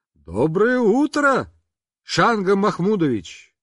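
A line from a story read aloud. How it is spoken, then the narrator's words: Shout. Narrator (Russian): крикнул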